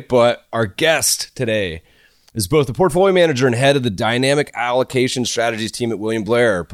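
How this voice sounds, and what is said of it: Stuffy, congested monotone voice. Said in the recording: “I'm a little stuffy. My normal monotone probably sounds even worse today”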